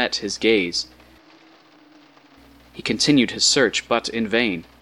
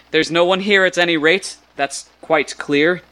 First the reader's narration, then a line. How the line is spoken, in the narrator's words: exclaimed aloud